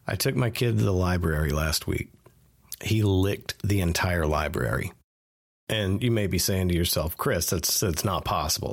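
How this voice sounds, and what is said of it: Stuffy, congested voice. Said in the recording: “I sound a little stuffy this week. I have a cold.”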